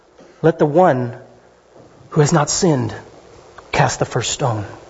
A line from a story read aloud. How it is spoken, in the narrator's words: Slowly, whispering in ears